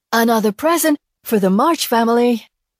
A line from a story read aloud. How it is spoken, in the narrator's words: announcing in a breathless voice